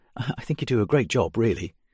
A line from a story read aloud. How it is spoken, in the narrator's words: she continued in a panicky tone